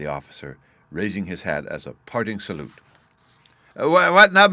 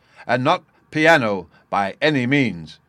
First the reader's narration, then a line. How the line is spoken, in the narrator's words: he shouted in stentorian tones